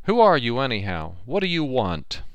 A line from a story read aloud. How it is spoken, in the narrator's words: I called out as loudly as I could